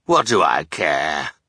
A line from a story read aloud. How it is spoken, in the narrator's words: Olaf growled, once again showing his villainous disregard for other people